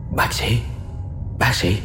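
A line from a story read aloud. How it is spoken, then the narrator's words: Stammering woman. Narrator (Vietnamese): người đàn bà đó miệng thì lắp bắp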